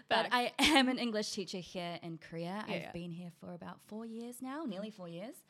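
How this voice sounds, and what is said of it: New Zealand accent, slightly American. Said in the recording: “I'm from New Zealand originally ... Y'all hear the accent, right? ... You might hear a little bit of American in there”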